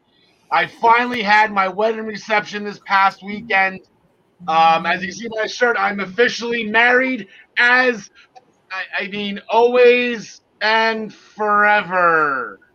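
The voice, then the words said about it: Hoarse, worn-out voice. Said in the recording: “as you can hear, my voice is shot”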